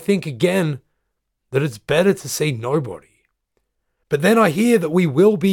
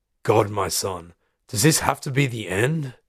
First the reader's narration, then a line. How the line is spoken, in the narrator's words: He sighs